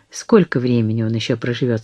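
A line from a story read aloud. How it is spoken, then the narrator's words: Plain. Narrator (Russian): спросила она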